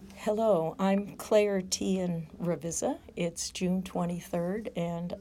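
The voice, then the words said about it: Husky voice. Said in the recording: “my voice is a little huskier than usual because I'm getting over a cold”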